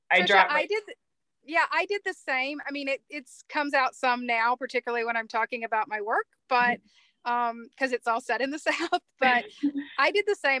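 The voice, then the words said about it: Slight Southern US twang. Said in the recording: “I can still hear your little twang of accent.”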